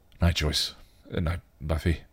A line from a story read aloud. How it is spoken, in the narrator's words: he mumbled, making his hasty exit